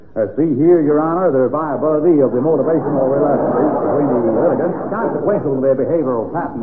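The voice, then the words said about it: Put-on American attorney accent. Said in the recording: “I might have been listening to a United States attorney pleading a cause in Wisconsin ... that horrible accent”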